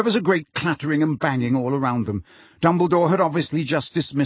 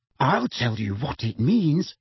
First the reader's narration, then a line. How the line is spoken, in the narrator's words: said Hermione through gritted teeth